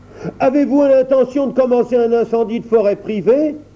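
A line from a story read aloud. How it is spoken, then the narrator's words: Yelling. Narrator (French): hurla Joseph Grumman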